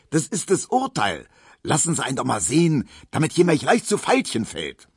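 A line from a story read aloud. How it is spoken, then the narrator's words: Shouting. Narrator (German): schrie Tisch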